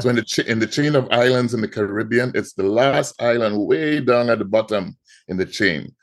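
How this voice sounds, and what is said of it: Trinidadian Caribbean accent. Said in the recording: “I'm sure everyone can hear the accent... I'm from the Caribbean... I'm from Trinidad and Tobago”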